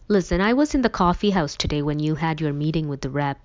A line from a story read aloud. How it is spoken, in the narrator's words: I said